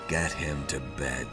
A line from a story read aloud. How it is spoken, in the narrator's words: he said wearily